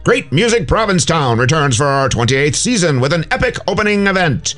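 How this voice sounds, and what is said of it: Old-time 1930s radio announcer voice. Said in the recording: “radio voice, my 1930s radio voice”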